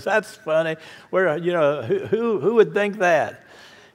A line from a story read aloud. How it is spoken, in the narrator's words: They're all laughing and says